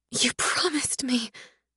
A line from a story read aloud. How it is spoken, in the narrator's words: whisper